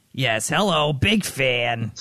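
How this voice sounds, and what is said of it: Imitates another person's voice. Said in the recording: “That's a great Tom impression.”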